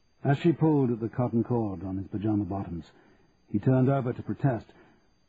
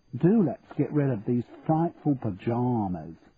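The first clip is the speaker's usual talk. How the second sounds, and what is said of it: Exaggerated English accent. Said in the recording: “Jackie's voice took on an exaggerated English accent.”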